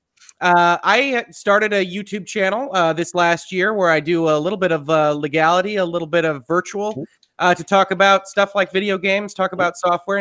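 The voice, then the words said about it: Worn-out, strained voice. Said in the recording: “I apologize that my voice is just about done”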